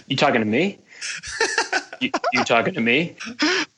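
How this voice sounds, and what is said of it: Robert De Niro impression. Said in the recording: “best Robert De Niro impression ... pretty good”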